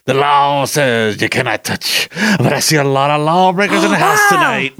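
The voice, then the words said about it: Impression of Arsenio Hall character. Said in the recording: “I see Arsenio Hall's, one of his characters are coming to America saying that ... that was an awesome impression.”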